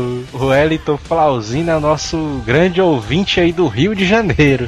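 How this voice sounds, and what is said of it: Usual voice. Nothing is said of it.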